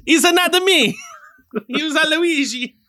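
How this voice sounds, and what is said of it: Mario character voice. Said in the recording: “I just did his voice”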